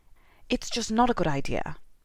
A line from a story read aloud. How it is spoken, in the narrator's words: Harry said curtly